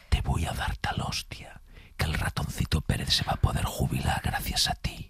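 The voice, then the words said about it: Menacing whisper. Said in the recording (Spanish): “susurrada ... que es en susurro, que da mucho más miedo cuando te lo dice susurrado”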